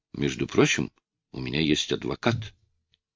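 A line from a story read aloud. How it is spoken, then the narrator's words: Calmer speech. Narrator (Russian): уже более спокойно проговорил Суарес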